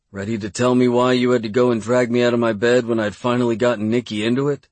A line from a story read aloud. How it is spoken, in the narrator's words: He laughed a little